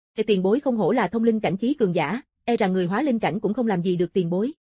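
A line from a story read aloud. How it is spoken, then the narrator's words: Smiling through pain. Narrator (Vietnamese): Đau nhức ngón tay khiến sắc mặt hắn vặn vẹo, nhưng vẫn mỉm cười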